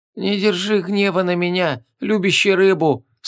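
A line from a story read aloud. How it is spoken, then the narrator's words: Weak voice, possessed man. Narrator (Russian): слабым голосом сказал бесноватый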